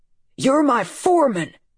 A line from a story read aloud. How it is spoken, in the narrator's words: Dad shouted